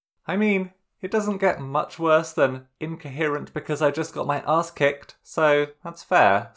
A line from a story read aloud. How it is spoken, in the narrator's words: Sokka agreed